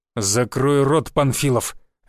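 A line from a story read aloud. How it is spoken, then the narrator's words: Barked, burly man. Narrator (Russian): рявкнул бритоголовый с крепкой мускулатурой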